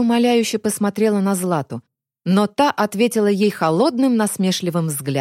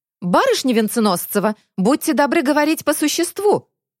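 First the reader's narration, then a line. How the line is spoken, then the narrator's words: Barking sharply. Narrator (Russian): рявкнул Полозов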